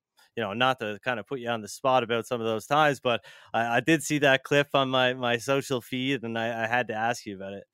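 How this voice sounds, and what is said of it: Cape Breton Canadian accent. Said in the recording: “You from Newfoundland, bud? ... Cape Breton, actually. ... I totally hear that accent from a mile away”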